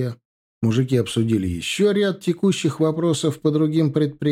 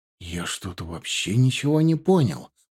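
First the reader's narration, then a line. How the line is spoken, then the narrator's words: Agitated whisper. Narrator (Russian): взволнованно зашептал он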